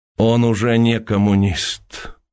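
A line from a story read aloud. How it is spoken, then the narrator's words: Sad voice. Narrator (Russian): печальным голосом произнес Уваров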